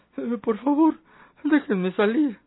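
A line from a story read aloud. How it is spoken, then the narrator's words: Reedy pleading voice. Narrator (Spanish): Quiso dar un tono enérgico a sus palabras, mas sin lograrlo, solo suplicó con voz aflautada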